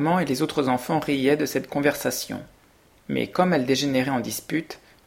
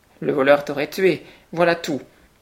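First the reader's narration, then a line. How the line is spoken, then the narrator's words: Exclaimed. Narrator (French): s'écria Pierre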